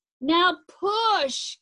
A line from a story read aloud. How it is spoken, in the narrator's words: Kevin yelled